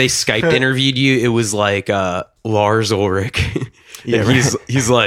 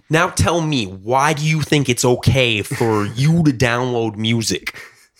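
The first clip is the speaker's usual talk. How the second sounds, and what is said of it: Imitates another person's voice. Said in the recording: “that was a good impression.”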